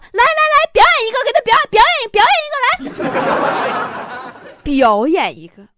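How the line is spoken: Enthusiastic shouting. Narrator (Chinese): 特别热情喊坨坨

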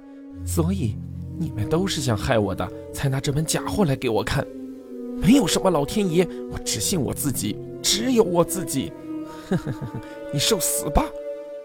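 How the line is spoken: Harsh, breathless. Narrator (Chinese): 东路急速喘了几口气，厉声道

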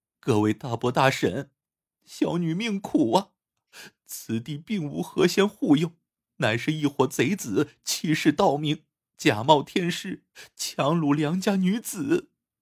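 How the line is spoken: Mournful wailing. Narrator (Chinese): 凄声哭道

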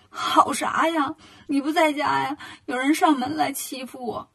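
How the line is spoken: Crying. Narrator (Chinese): 铁扇公主就哭了

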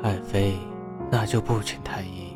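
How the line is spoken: Soft coaxing. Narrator (Chinese): 吕彻 轻声哄道

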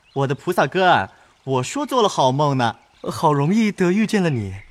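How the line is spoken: Two men laughing together. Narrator (Chinese): 沾光、单聘人二人……都笑着赶上来……都道

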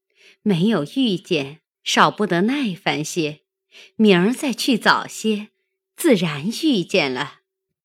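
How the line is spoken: Laughing. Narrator (Chinese): 凤姐笑道

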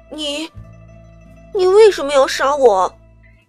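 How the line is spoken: Shocked, trembling voice. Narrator (Chinese): 新洛的眼中也是震惊的神色，良久才颤声道

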